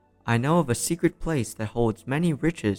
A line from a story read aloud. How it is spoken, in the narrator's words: said the stranger